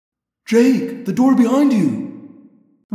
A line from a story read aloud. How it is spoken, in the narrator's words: Rachel cried